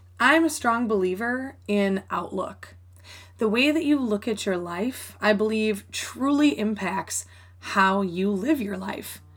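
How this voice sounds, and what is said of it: Voice sounds different, congested. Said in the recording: “my allergies are so bad right now. So I know my voice sounds a little bit different than normal”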